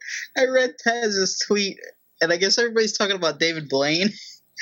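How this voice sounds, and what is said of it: Usual voice. Nothing is said of it.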